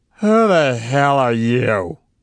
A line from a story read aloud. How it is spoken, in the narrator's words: he shouted, his voice slurred with inebriation